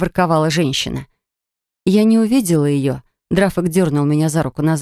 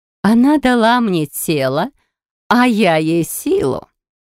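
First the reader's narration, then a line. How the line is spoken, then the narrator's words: Loud laughter. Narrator (Russian): Расхохоталась та, что выглядела как моя бабка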